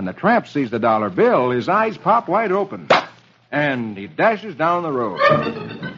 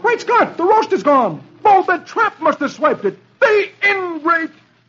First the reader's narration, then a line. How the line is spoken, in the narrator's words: He sees the bare table and exclaims